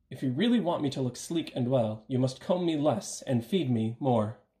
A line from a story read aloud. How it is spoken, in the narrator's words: The horse cried to the groom